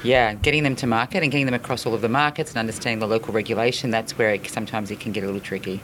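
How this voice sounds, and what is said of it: Australian accent. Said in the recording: “you have a pretty cool accent ... I'm going to guess maybe like, you know, Australia.”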